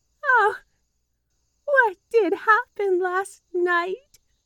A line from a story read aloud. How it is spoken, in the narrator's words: wailed Margaret